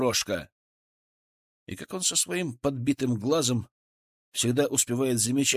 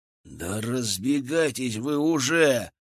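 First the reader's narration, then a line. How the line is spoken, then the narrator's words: Hissed. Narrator (Russian): прошипел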